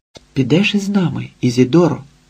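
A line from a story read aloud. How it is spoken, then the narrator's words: Excited whisper. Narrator (Ukrainian): прошепотів збуджено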